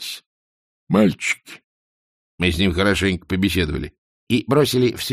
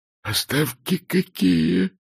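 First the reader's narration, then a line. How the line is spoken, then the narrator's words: Whisper. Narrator (Russian): прошептал он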